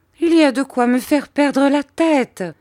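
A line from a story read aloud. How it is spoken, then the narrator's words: Mother exclaiming. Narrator (French): s'écria ma mère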